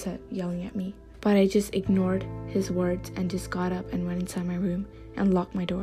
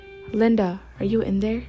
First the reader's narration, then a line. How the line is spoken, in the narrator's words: he said